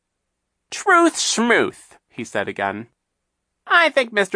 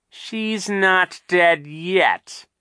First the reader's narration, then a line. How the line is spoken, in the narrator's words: Captain Sham said in a terrible voice